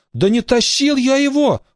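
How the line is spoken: Pleading. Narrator (Russian): взмолился Шурик

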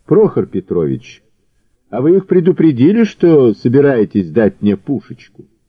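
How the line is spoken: Calm, smirking. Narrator (Russian): Прохор, ухмыльнувшись, спокойно перевел

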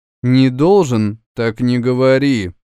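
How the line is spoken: Rude, curt. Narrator (Russian): грубо отрезала Малурна

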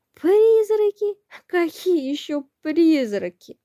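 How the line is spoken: Hoarse laughter. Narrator (Russian): Хрипло захохотав

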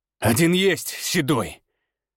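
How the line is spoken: Growl. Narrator (Russian): прорычал я

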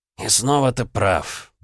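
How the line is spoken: Mist speaking through teeth. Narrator (Russian): процедил туман

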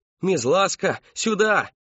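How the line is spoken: Shout. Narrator (Russian): прокричала мать Кристофера

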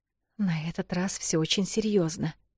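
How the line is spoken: Mysterious whisper. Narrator (Russian): загадочным тоном прошептала Эл

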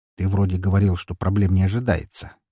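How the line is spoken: Quiet reminder. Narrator (Russian): негромко напомнил я Коршунову

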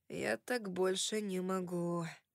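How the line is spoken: Mumble. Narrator (Russian): пробормотал я

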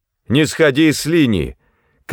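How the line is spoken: Shout. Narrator (Russian): крикнул я Джарту

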